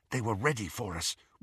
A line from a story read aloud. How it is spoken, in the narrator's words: whispered Harry